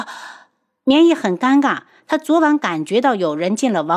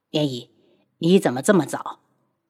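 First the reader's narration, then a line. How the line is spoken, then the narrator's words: Soft, pitying voice. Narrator (Chinese): 轩辕志终是不忍心，低声道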